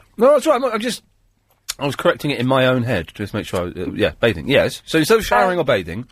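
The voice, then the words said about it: Hoarse voice, sore throat. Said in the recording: “I've got a cough. I've got a really bad sore throat.”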